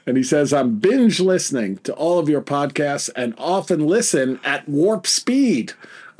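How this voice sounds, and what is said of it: Heavy New York accent. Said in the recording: “your heavy New York accent”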